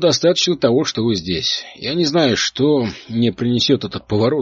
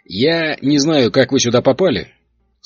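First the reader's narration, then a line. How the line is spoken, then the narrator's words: Plain. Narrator (Russian): сказал он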